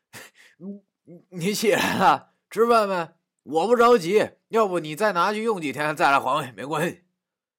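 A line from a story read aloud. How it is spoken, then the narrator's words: Embarrassed, forced smile. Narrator (Chinese): 觉着很丢脸，于是挤出一副很猥琐的笑容对他说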